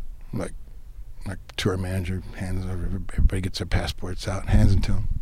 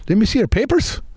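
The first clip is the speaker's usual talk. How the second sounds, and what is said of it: Weak put-on Irish accent. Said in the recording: “I can't do a good Irish accent.”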